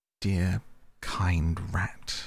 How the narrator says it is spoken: murmured Toad

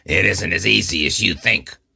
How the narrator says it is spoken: the man laughed harshly as he said

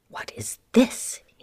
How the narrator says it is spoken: muttered

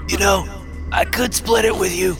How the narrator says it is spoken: gasped

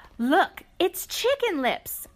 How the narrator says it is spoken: cried the farmer's granddaughters

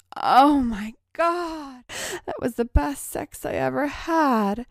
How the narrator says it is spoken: she gasped

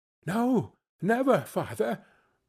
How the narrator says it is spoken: they all cried again

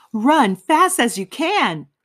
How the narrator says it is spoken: shouted the little boy

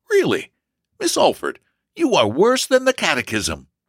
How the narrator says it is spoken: with a perplexed laugh and replied

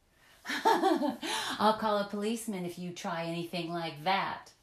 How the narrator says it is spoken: said Olive, laughing

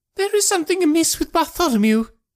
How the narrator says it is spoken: he cried

